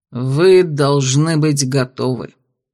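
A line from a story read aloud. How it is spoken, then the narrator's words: Solemn conclusion. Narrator (Russian): торжественно заключил Тонс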